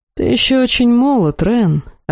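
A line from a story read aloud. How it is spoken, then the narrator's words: Heavy sigh. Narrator (Russian): Арвель тяжело вздохнул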